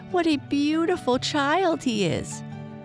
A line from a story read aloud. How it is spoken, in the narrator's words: she cried